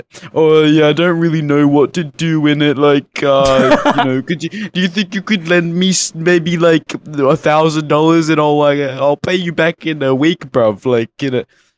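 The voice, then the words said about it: Imitates another person's accent. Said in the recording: “I should be doing the accent... What is his accent, dude? I don't know how to do it.”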